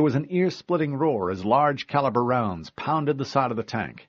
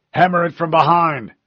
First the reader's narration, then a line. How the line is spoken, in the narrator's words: the chief yelled